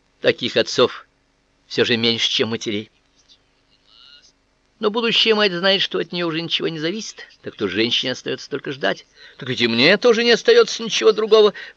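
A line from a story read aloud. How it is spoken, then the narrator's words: Sigh. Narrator (Russian): вздохнул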